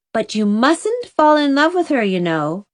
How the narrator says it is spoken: warned Anne, laughing carefully

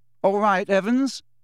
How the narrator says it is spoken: said James, and the tone of his voice was suddenly pleasant, deeper, more mature

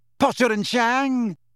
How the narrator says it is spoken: screeched Pansy to a chorus of snide giggles

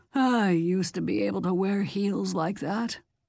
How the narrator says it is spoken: Ida said wistfully

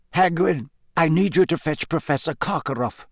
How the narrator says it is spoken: said Dumbledore

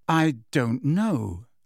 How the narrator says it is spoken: said Harry, getting wearily to his feet

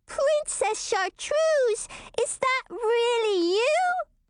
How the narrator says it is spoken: squeaked Marniekins

